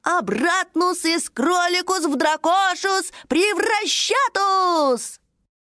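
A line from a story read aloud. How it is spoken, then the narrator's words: Loud. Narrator (Russian): Дракоша громко произнес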